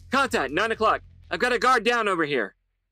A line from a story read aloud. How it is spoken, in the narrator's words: a voice shouted on the radio